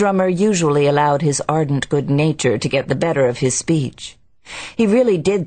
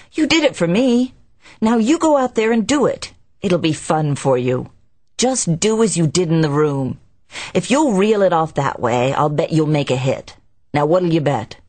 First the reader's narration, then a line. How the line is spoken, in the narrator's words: he exclaimed